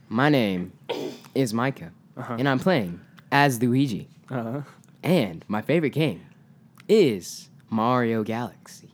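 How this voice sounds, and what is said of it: Smooth radio announcer voice. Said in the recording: “you have a very nice radio voice”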